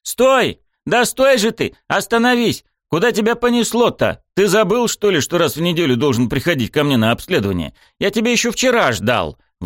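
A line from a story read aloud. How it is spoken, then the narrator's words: Indignant yelling over phone. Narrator (Russian): Возмущенно вопил в трубку доктор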